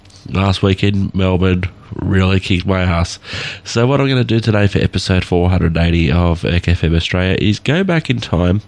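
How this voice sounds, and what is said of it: Nasal, congested voice. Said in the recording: “As you can hear by my voice, I'm a bit nasally, I'm a bit congested.”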